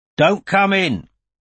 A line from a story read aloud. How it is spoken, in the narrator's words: he bellowed